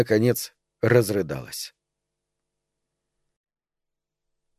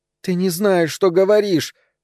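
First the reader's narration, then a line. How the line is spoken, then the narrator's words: Moaning. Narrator (Russian): стонала Эльза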